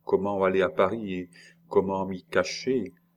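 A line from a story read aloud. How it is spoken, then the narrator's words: Sighing question. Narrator (French): Julie demanda en soupirant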